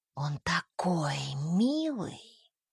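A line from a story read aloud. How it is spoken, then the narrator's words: Whisper. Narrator (Russian): прошептала Жанна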